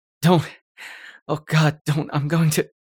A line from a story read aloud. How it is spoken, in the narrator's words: gasped